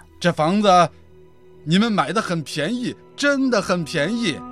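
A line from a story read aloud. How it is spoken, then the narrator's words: Smiling, friendly. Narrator (Chinese): 房东男子微笑着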